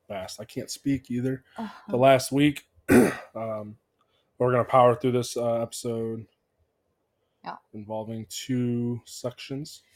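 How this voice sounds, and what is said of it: Voice sounds off from illness. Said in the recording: “my voice is a little off. I've been sick”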